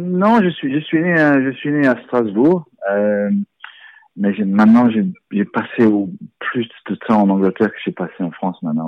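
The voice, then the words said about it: Charming foreign accent in French. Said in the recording (French): “vous parlez très bien le français, avec un charmant accent ... d'où vient cet accent”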